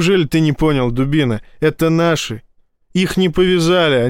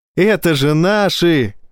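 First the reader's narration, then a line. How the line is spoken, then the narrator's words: Bursting with laughter. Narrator (Russian): расхохотался Файн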